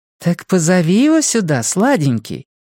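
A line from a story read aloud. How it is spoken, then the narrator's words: Cooing. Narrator (Russian): проворковала Дарлин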